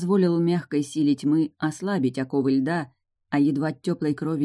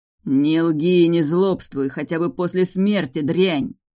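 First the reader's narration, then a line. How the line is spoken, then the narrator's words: Roaring. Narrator (Russian): взревел оборотень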